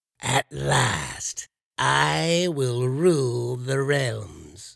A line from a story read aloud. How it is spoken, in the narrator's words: the stranger cackle